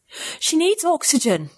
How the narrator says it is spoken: I gasped again

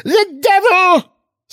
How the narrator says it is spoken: screamed the pious old lady

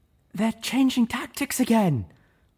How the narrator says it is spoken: Velvet Remedy yelled from somewhere further away

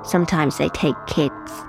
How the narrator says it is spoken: she said

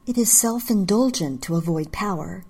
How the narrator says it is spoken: I said

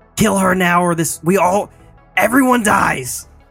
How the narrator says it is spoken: I'm going to scream out

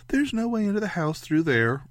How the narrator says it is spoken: Ray said brightly

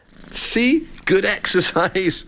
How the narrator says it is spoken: chuckled Jack

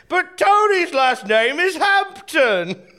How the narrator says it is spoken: I said, again very loudly

